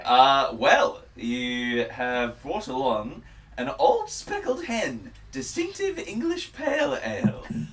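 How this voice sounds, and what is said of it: Put-on British accent. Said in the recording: “I had to do it in a British accent”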